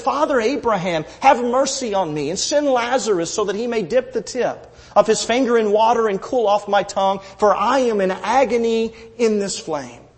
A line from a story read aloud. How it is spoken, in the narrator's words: cried out and said